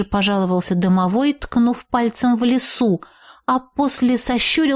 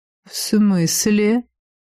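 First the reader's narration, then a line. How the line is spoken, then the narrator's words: Soft velvety question. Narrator (Russian): Мягким бархатным голосом спросил ректор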